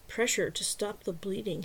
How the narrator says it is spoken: muttered to himself

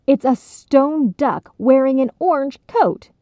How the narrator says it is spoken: Cheryl cried in exasperation

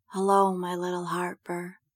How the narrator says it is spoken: Prudence whispers

